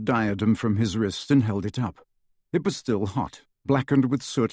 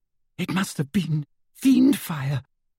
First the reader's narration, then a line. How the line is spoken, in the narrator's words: whimpered Hermione